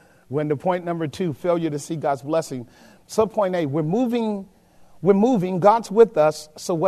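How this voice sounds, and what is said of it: Usual voice. Nothing is said of it.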